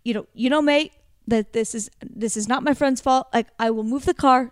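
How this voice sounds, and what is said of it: Bad mixed South African accent. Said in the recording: “This is a weird, bad, like, South African accent. ... It's like South African and Swedish and Canadian all mixed into one.”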